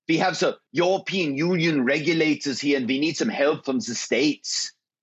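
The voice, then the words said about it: Put-on German accent. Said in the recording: “I had different accents that I would use... we each had an accent that was kind of our go-to accent... Gerhard calling from the office in Frankfurt, Germany”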